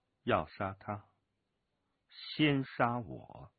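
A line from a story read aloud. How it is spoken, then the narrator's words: Cold voice. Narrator (Chinese): 飞鸿笑冷冷的声音传了过来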